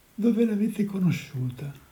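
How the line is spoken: Gloomy, somber question. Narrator (Italian): Il Gelli gli domandò con voce cupa

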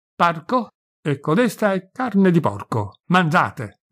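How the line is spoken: Shouted. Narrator (Italian): gridò Mauro

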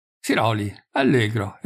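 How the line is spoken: Exclaimed. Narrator (Italian): esclamò il campiere dello Bruno

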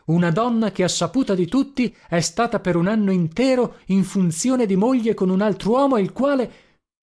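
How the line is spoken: Angry exclamation. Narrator (Italian): esclamai irosamente

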